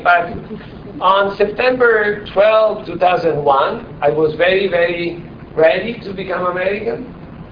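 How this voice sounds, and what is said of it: Italian accent. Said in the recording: “I'm still Italian. Your accent, my accent clearly reveals me”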